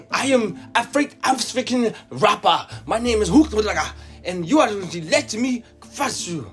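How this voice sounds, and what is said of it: Made-up West African-style accent. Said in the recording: “What fuck accent is that? ... Batiki ... It's my made up tribe in my head. ... It's the south of Sierra Leone.”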